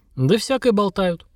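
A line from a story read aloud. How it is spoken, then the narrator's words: Vague grunt. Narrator (Russian): неопределенно хмыкнул капитан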